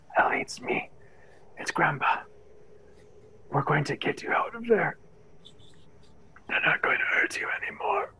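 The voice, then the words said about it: Raspy old man's voice. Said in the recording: “his voice raspy as all hell from lack of moisture and cold”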